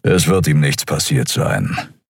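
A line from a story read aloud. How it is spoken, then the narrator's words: Grumbling. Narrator (German): brummte Keru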